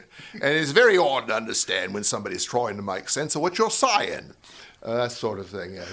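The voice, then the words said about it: Guttural put-on Cockney accent. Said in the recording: “great dialect there. Can you do a little bit of that? ... it's a guttural Cockney accent”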